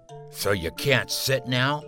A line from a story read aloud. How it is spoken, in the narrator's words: sneered Obi, the other boy